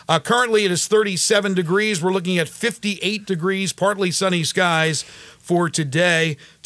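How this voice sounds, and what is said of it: Speaks with a regional accent. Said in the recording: “I say Sanantobia, but I guess you don't understand my accent.”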